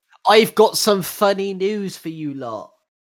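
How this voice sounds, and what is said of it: Put-on West Country farmer accent. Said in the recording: “Why did you just turn into a farmer? ... the West Country accent”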